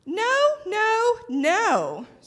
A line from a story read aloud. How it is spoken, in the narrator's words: squeaked Mortimer